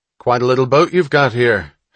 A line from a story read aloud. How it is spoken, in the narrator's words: Hatch called out